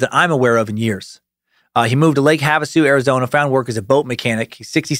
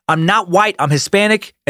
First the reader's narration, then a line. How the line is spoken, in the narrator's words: Lopez yells back